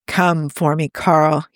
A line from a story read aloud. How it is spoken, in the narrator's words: he growled